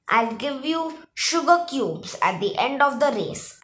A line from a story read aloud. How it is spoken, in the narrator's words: said